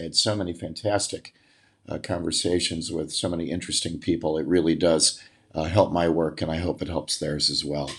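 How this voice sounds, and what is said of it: Hoarse voice. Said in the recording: “that's why I'm hoarse.”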